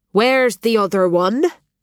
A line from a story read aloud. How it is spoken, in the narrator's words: Brendan's voice boomed